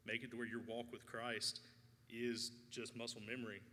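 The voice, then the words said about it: Choked-up, emotional voice. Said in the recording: “I don't know why I keep getting choked up.”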